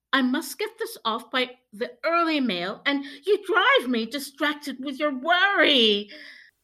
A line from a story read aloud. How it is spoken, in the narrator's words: cried Mrs